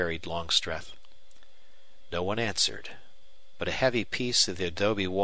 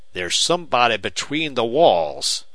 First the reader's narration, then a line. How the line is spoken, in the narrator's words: thundered Longstreth